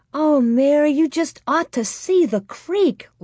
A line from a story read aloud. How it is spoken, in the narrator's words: Laura cried